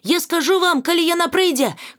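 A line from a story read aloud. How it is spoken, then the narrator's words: Shout while running. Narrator (Belarusian): крыкнула Монкан на бягу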